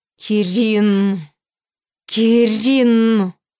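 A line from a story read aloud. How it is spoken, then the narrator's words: Muffled growl close by. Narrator (Russian): глухо зарычала прямо над ухом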